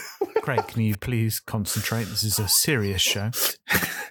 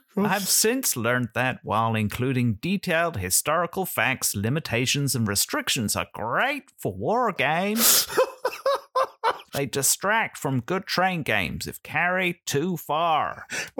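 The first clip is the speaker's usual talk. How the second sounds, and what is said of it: Imitates another person's voice. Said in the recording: “that was my best John Borer impression”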